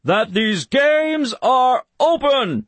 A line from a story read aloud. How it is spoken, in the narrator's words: he bellowed